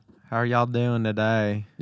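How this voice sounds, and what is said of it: Put-on Southern American accent. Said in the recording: “Not to mimic people sometimes if they're talking with a southern accent.”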